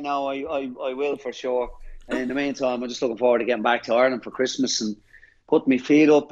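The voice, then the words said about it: Irish accent. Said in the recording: “work that Irish accent”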